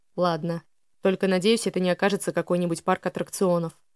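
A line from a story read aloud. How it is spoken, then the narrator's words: Heavy sigh. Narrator (Russian): Элиас тяжело вздохнув, произнес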